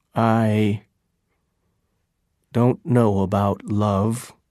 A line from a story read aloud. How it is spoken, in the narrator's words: said slowly